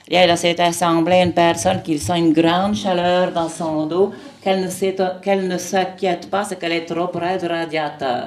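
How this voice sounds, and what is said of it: Imitation of Père Tardif, Québécois accent. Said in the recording (French): “je vais vous en faire un faux pour faire rigoler. C'était le père Tardif, c'est un prêtre canadien ... Et là, le Canadien, hein, un accent québécois.”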